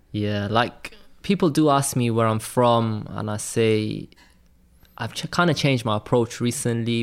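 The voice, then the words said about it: Welsh accent. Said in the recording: “that you're Welsh? Do people ever, you know, pick it up in your accent?”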